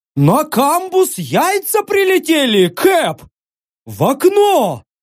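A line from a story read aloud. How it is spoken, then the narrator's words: Astonished yelling. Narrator (Russian): Изумленно заорали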